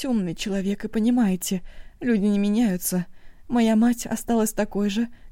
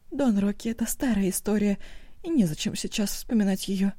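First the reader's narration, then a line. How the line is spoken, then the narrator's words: Quiet. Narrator (Russian): тихо проговорила Оба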